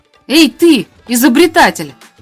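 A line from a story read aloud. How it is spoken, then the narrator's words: Shout. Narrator (Russian): крикнул Михаль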